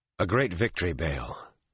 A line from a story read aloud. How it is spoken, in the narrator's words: Rand said wearily